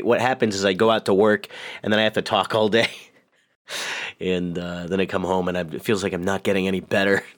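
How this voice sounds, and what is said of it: Voice deeper than usual. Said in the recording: “my voice is deeper than usual”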